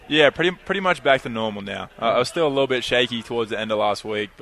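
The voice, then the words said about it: Australian accent. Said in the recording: “You're from Australia... I'm trying my best to keep the accent... I'm losing it”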